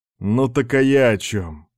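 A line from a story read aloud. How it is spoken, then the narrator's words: Joyless snort. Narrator (Russian): невесело хмыкнул контрразведчик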